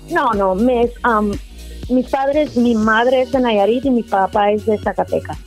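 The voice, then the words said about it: American-sounding accent in Spanish. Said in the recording (Spanish): “escucho en tu acento así como que te escuchas así como, como muy americana.”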